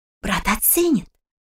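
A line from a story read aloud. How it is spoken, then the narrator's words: Whisper. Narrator (Russian): шепнула Лизетта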